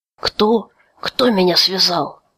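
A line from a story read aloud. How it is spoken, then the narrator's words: Hoarse. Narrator (Russian): прохрипел Тай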